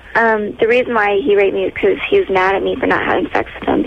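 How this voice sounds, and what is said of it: High, little-girl-like voice. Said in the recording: “that voice... That little girl voice.”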